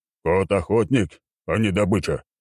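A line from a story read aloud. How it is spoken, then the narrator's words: Snorting. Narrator (Russian): фыркнул маг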